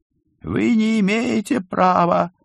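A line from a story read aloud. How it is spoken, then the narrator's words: Shrill voice. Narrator (Russian): услышал он визгливый голос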